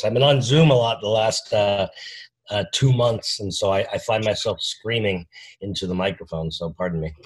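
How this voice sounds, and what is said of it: Hoarse, strained voice. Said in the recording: “I'm kind of losing my voice.”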